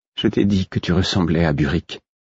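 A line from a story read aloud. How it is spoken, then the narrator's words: Cautious tone. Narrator (French): fit-elle d'un ton circonspect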